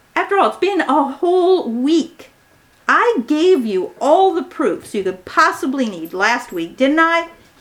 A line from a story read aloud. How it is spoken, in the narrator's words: cried out in frustration